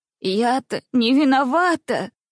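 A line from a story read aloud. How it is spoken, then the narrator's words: Sobbing. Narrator (Russian): прорыдала она снова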